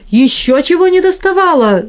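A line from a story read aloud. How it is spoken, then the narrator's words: Terrified scream. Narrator (Russian): закричал в ужасе миссер Лодовико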